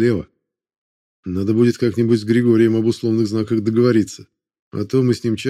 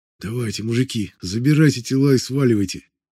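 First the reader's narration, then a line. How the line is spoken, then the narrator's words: Whisper. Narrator (Russian): Прошептал я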